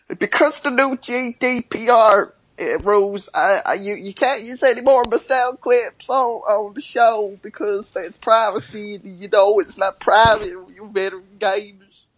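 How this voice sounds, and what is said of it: Weird hillbilly-sounding impersonation voice. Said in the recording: “He's turned a wannabe thug gangsta dude into like some weird hillbilly”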